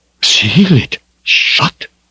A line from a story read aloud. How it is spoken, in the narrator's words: he gasped